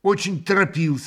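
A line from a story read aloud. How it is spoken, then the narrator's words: Sharp reply. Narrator (Russian): отвечал резко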